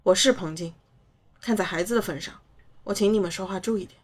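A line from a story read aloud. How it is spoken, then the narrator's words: Deep, grave voice. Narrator (Chinese): 姨妈沉声道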